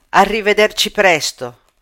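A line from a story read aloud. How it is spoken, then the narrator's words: Shouted. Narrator (Italian): uno dei russi gli gridò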